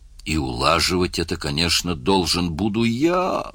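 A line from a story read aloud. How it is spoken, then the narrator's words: Groan. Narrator (Russian): простонал Мерс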